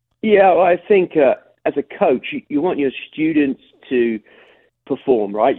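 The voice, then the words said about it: English accent, sometimes heard as Australian. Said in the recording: “an awfully interesting accent for Alabama ... Alabama via London just outside London ... A lot of people say it sounds Australian, but it's definitely an accent”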